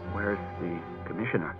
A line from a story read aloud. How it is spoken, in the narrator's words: mumbled, hot with mortification